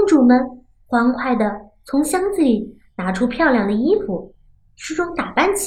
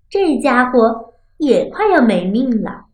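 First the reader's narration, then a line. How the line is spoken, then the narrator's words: Laughing. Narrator (Chinese): 大公主笑道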